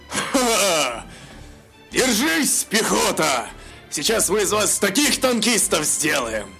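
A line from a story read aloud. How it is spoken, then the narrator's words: Laughing. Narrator (Russian): Захохотал Бовар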